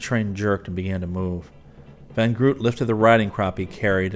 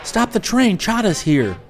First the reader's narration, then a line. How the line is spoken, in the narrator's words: Rick yelled